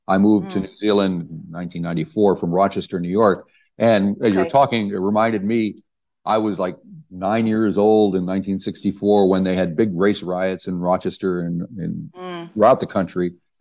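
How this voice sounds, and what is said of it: American accent. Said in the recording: “as you can probably tell, I'm an American person with my accent.”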